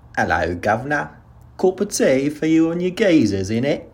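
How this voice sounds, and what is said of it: Put-on British accent, higher pitch. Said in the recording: “I'll have a go at a British accent ... how garbage it is ... his voice was down here and then it was ... up there”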